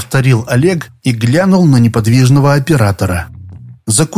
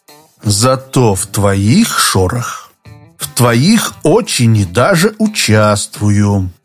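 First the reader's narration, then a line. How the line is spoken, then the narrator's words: Slow deliberate speech. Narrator (Russian): медленно выговорил Иванов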